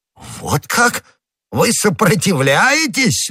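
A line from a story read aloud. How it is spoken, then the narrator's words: Exclamation. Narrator (Russian): воскликнул Дежуссак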